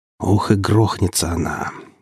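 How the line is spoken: Grumbling. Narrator (Russian): проворчал я

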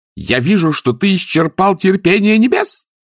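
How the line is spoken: Shrieking. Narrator (Russian): взвизгнула сеньора Моретти

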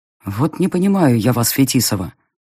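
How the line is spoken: Weary sigh. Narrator (Russian): вздохнул крокодил, перешедший из стадии отрицания в стадию

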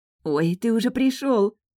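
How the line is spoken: Exclaiming. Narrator (Russian): воскликнула она

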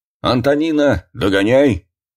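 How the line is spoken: Old man shouting. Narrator (Russian): Дед Семен крикнул

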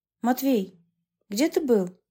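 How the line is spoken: Firm, calm question. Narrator (Russian): спросила я твердо, решив не набрасываться на него с претензиями, а расспросить спокойно

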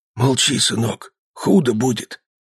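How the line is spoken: Whispered. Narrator (Russian): шепнул

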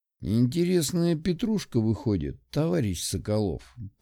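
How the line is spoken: Said through clenched teeth. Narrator (Russian): процедил Мишка

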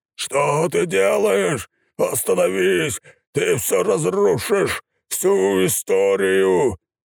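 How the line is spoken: Shout. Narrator (Russian): Закричал Крама

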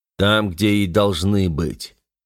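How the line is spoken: Calm, hiding irritation. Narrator (Russian): ответил мне генерал спокойно, но скрывая раздражение

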